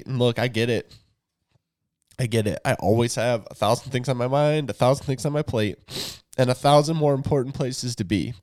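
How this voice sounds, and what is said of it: Emotional voice. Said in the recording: “the emotion that you hear in my voice”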